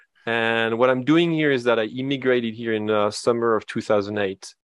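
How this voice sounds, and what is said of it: Slight French accent. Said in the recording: “you might hear a little bit of an accent when I talk. It's because I am from France.”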